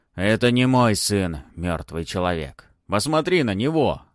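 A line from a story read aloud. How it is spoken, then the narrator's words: Dragon growling. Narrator (Russian): рыкнул дракон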